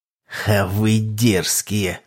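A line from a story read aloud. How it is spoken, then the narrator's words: Amused snort. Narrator (Russian): хмыкнул папа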